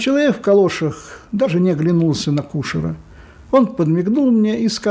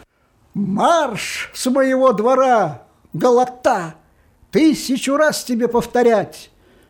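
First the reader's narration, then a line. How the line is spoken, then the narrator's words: Shouting from window. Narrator (Russian): Кушер закричал из окна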